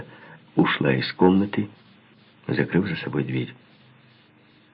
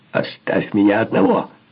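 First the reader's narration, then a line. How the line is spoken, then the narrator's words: Screamed. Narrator (Russian): завопил я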